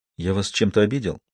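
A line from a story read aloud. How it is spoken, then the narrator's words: Quiet question. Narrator (Russian): Помедлив, Джордан тихо спросил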